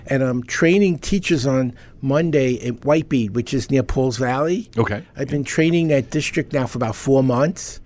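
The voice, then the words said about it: Brooklyn New York accent. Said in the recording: “where does that accent come from? ... Brooklyn. ... Flatbush. East New York.”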